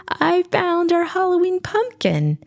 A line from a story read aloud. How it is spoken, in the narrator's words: the little boy cried with pride